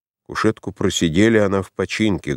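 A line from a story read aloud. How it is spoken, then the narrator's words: Muffled old man's voice. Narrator (Russian): глухо сказал старичок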